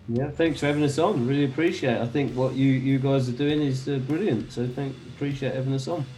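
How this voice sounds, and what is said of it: London accent. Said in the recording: “that London accent of yours”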